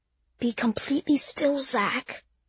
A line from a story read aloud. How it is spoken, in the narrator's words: whispered